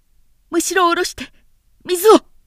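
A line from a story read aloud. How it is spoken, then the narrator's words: Loud shout. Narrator (Japanese): と大きく叫んだ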